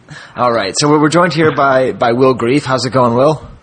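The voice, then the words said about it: Put-on radio announcer voice. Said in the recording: “I talk differently when I know I'm recording. I get my little radio voice here.”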